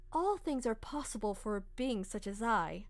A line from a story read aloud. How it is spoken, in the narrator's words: Orochi calmly stated